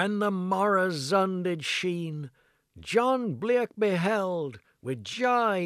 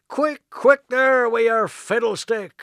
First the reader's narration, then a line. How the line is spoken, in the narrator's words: cried Mary Blick of Blackmore